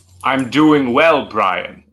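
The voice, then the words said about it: Menacing villain character voice. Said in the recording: “That's a villain voice, and I love it. In a good way”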